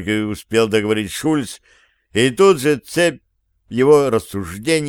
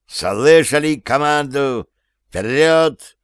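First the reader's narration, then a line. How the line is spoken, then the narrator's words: Beastly growl. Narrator (Russian): Барновец рычал, как почуявший добычу зверь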